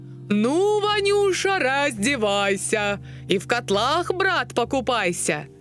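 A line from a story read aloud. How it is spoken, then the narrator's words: Shout. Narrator (Russian): Царь Ивану закричал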